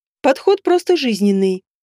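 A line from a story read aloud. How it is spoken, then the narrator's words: Calm objection. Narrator (Russian): спокойно возразила Света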